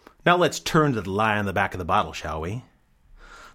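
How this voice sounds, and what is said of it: Usual voice. Nothing is said of it.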